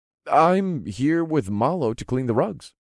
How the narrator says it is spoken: I said in an innocent tone

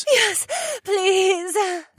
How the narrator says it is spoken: my Korean lover gasped

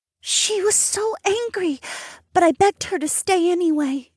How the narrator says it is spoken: Mary sighed

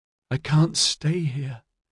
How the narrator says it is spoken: Araminta moaned

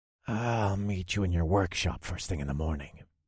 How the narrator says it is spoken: I said, in a low voice so only he could hear

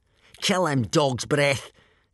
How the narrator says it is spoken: shouted Snotface Snotlout, Dog's Breath's friend and fellow bully

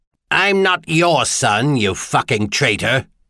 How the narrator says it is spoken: the scar-faced man snarled

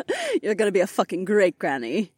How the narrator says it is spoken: Kat laughed

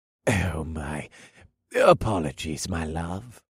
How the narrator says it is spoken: Racine purred in a sickeningly sweet voice

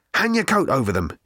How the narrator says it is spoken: he muttered to Fenchurch

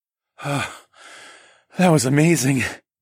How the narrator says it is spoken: I breathed when the shocks of pleasure had finally started to subside

